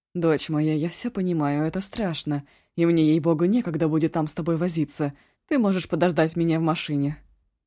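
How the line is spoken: Curt, abrupt. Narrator (Russian): Янса отрывисто сказала

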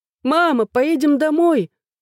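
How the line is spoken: Frightened child screaming. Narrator (Russian): закричал мой перепуганный сын

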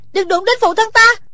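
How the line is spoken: Shout. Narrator (Vietnamese): Thủy Sinh hét lên

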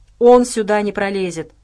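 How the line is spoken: Grumbling bear cub. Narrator (Russian): проворчал медвежонок

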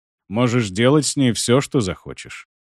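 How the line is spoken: Calm. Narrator (Russian): спокойно произнес Ольгерд

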